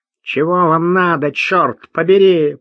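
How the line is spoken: Nasal, strong regional accent. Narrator (Russian): прогнусавил он сильным ньеврским выговором

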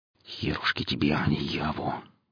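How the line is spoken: Inner muttering. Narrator (Russian): бормотал мысленно сталкер

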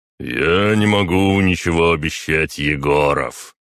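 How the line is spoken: Deep voice after pause. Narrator (Russian): пробасил спустя несколько секунд

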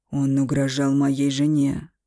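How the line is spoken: Growl. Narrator (Russian): прорычал Эмиль

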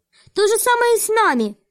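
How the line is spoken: Exclamation. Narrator (Russian): воскликнула Вайлет

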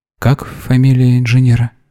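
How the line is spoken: Strained, hoarse question. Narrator (Russian): севшим голосом спросила Вера

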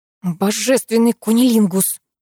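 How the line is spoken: Growl. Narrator (Russian): прорычала я

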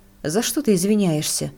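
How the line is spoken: Irritated question. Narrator (Russian): раздраженно спросил Шеп

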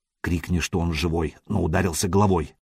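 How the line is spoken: Whisper in foreign tongue. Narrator (Russian): прошептал Сергей по-ромейски

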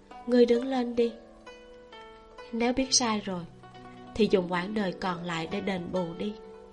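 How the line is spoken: Gentle. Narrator (Vietnamese): Nhiễm Nhan nhẹ nhàng nói

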